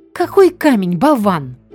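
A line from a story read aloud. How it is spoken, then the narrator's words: Yelling. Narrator (Russian): тут же завопила его жена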